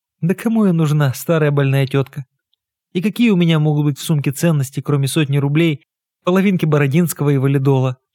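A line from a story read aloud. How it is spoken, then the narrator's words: Laughing. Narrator (Russian): Маргарита Тихоновна засмеялась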